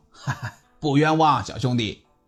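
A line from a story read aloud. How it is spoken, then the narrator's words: Big officer, sinister laugh. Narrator (Chinese): 这大个的军官呢，狞笑道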